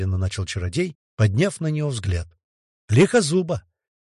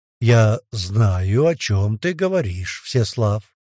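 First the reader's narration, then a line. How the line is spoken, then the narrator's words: Slow, cautious. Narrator (Russian): медленно, осторожно произнес он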